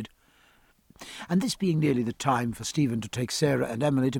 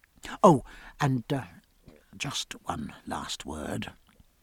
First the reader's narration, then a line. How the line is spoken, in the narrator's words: added in a low voice